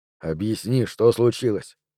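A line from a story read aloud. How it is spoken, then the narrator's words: Gentle but insistent. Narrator (Russian): сказал он мягко, но настойчиво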